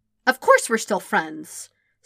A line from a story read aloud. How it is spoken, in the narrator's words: Sokka said indignantly